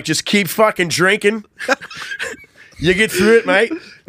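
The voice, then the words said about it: Convincing put-on Australian accent. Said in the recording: “This is an excellent accent ... That's an impressive ass Australian accent. That's the hardest one to do. ... you nailed it”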